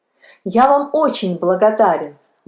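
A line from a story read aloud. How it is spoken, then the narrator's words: Boy's exclamation. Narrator (Russian): воскликнул мальчик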